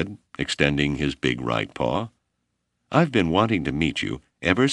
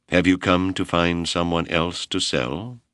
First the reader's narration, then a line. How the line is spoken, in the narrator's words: Noelani asked coldly